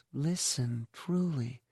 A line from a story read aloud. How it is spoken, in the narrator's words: Sallow says my name in her soft voice, when she says